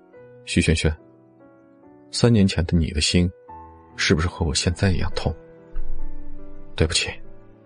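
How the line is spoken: Low murmur. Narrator (Chinese): 他低声的呢喃着

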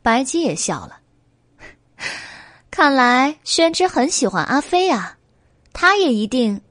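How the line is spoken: Young scholar laughing. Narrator (Chinese): 小书生笑道

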